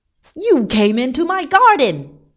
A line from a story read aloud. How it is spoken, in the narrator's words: he shouted